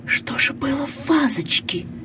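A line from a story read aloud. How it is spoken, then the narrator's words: Whispered question. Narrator (Russian): Она спросила шепотом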